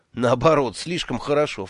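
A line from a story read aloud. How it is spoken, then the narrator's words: Snorting. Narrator (Russian): фыркнул я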